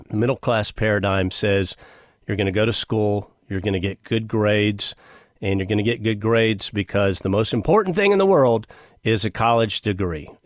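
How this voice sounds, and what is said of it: Sarcastic delivery. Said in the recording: “I'm being sarcastic,”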